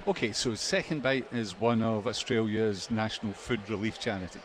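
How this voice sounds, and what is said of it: Speaks with a noticeable accent. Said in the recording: “I'm loving your accent so far”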